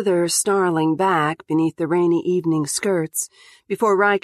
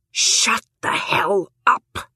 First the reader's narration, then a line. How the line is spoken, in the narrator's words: She says this aloud in a hissed whisper